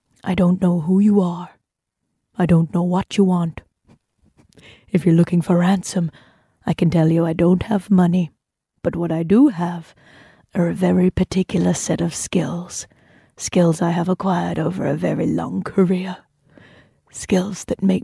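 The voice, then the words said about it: Awful, all-over-the-place put-on accent. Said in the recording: “My accents are awful, by the way, but this one is kind of allowed to be awful because it's all over the place as it is”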